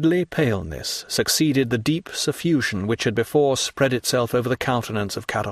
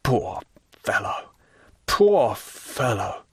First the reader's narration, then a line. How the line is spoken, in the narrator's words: murmured Caderousse